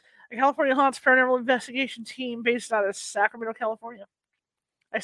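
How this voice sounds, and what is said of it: Usual voice. Nothing is said of it.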